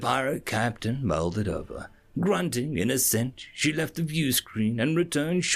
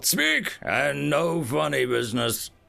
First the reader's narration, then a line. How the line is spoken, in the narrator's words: she growled